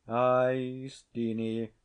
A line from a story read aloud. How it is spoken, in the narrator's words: quoth, sighing deeply